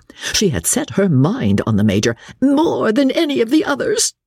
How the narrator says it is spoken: she sobbed

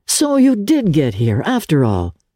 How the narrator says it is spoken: he exclaimed

